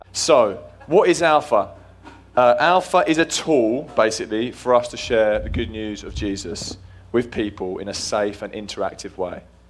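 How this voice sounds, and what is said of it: English accent. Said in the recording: “I am actually English ... we love your accent. What part of Australia are you from? We are not from Australia.”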